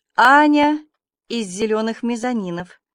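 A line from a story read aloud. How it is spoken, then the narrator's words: Timid little girl. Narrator (Russian): сказала маленькая посетительница робко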